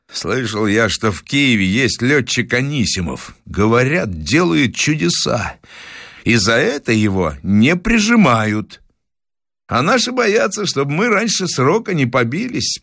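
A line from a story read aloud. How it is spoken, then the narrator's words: Calm statement. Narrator (Russian): спокойно констатировал товарищ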